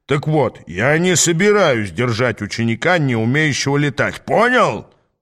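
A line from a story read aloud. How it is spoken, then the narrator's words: Growl. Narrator (Russian): прорычал он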